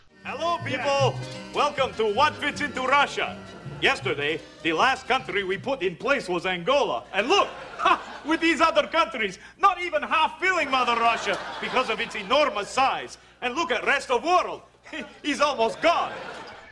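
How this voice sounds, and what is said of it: Bad put-on Russian accent. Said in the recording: “putting on a bad Russian accent”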